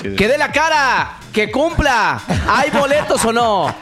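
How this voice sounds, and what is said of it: Shouting. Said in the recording (Spanish): “¿Por qué gritas?”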